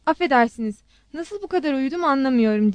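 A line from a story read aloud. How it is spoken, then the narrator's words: Stammering slow English. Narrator (Turkish): diye kekeledi Armanus ağır çekim İngilizceyle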